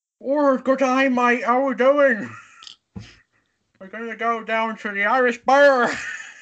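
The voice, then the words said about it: Irish-Australian mixed put-on accent. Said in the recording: “an Irish accent crossed with an Australian accent”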